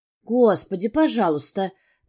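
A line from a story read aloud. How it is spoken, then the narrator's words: Muttering. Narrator (Russian): пробормотала я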